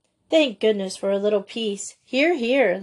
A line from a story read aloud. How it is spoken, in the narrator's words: laughed Miss Maynard